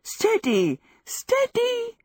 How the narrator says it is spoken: she gasped, giddily

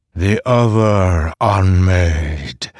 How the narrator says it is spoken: Mishram said, her voice booming across them

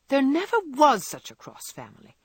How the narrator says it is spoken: cried, losing her temper when she had upset an inkstand, broken both boot lacings, and sat down upon her hat

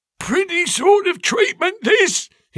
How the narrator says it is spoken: he cried

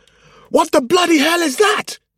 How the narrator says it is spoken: shouted as he revved the engine to life

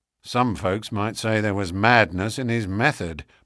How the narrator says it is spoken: muttered the inspector

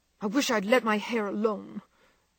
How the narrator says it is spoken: cried Meg petulantly

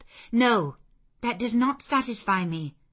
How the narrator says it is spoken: I exclaimed

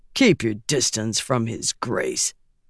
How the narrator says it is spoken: Zhu growled

